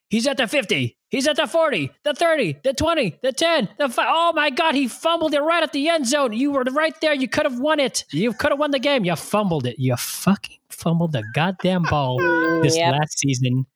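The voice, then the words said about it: Excited sports commentator-style play call. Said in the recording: “I'll just do my impression of the soundbite right now.”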